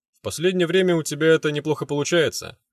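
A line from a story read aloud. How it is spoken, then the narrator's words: Barmaid chuckling. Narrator (Russian): хохотнула барменша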